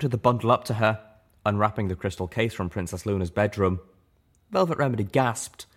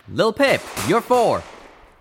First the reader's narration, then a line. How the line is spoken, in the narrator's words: Calamity shouted